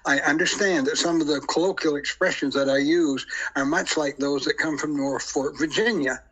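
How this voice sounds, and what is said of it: Deer Island, New Brunswick accent. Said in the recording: “here on Deer Island, New Brunswick, we have an accent”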